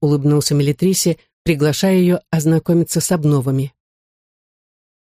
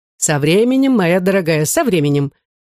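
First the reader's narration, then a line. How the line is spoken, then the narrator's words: Cheerful reply. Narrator (Russian): весело отозвался Ледащев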